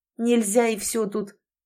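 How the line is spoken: Cold. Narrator (Russian): Элизабет холодно произнесла

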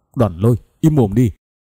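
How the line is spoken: Loud shout. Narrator (Vietnamese): La Thiên lớn tiếng quát

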